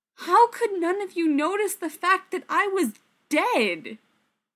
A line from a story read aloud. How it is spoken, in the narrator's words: Rodney said, slightly desperately